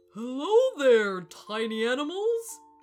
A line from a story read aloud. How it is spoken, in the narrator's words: boomed the elephant